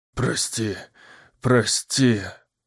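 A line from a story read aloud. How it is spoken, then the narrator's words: Mumbling, just woken. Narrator (Russian): Забормотал Уилл, очнувшись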